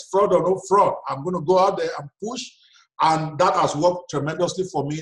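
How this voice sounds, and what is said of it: Nigerian accent. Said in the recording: “I'm African, I've got this accent ... my Nigerianness”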